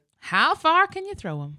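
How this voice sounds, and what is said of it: Light country accent. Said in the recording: “I love the little country accent. I loved it.”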